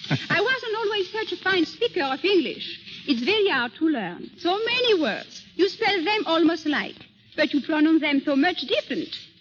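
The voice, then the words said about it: French-accented English. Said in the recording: “Miss Pons was born in southern France ... Why don't you foreigners talk English like me? I know. I've only a little accent.”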